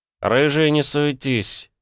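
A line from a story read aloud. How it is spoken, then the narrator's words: Irritated, curt. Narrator (Russian): раздраженно бросил Петя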